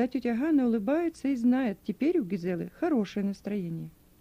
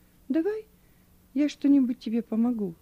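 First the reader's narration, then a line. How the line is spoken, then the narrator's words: Gentle girl. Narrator (Russian): девочка ласково говорит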